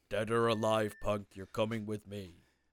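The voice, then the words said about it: Weak RoboCop impression. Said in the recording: “Not your best impression.”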